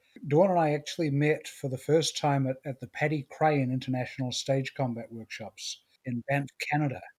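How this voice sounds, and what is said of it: New Zealand accent. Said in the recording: “I have a weird accent ... I come from New Zealand originally”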